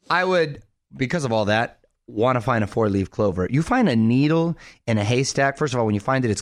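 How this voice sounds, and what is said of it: Usual voice. Nothing is said of it.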